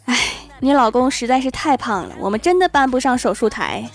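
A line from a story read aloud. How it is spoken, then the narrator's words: Sighing doctor. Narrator (Chinese): 医生…叹了一口气说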